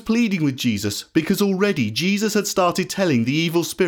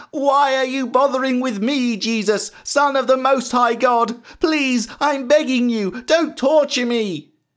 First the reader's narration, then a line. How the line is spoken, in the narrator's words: And at seeing Jesus, he shrieked, and started screaming